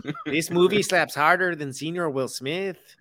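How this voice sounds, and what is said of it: Speedy Gonzalez accent impression. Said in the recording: “That was a random ethnic accent. ... Speedy Gonzalez. ... That was a solid Speedy Gonzalez. ... It's literally Speedy Gonzalez.”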